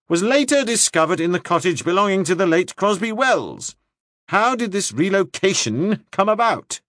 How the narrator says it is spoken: said Broham, raising his voice above the scattered laughter

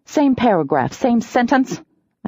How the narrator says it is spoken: I snapped

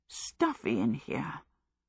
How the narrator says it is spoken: Sophie muttered several times

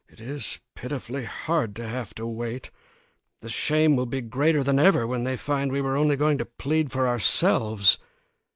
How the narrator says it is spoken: the husband whispered to the wife

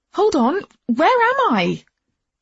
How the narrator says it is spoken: I yelled

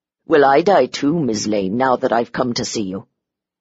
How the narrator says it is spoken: He said roughly

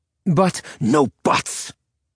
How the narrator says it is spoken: Srausha snarled

